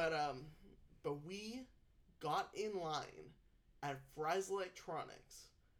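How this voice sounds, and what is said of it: Usual voice. Nothing is said of it.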